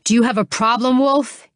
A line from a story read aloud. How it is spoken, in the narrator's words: he snarled